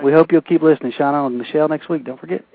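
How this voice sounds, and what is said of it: Southern American accent. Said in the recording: “They got a southern accent as bad as mine, maybe worse.”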